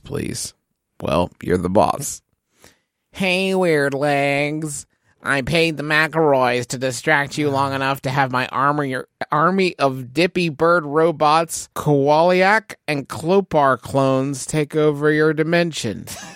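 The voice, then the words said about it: Nasally character voice. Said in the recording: “in a nasally voice”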